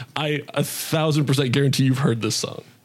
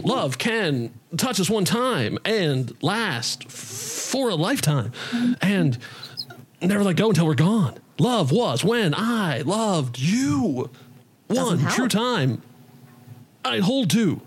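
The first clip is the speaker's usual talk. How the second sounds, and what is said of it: Bad imitation of another person's voice. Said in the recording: “I could do a bad Shatner impression.”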